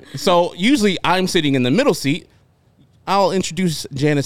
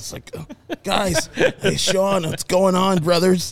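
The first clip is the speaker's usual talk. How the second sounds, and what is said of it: Imitates another person's voice. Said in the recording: “Great Sean impression.”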